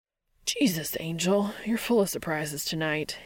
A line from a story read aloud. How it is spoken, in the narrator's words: he hisses